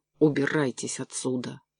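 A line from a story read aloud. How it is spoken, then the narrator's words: Growled. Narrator (Russian): прорычала она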